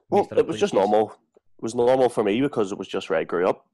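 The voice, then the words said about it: Northern Irish accent. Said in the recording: “if you can tell his accent, he's from Northern Ireland ... the voice is a wee bit more aggressive”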